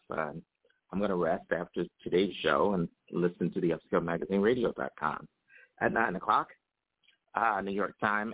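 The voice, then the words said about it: Rough, raspy voice. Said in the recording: “my voice is a little rough this morning, a little raspy”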